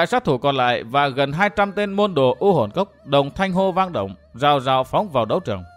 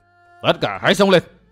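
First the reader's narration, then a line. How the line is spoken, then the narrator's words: Shouting. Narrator (Vietnamese): Lão hộ pháp quát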